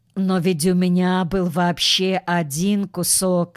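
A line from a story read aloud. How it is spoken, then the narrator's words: Plain. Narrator (Russian): сказал Костя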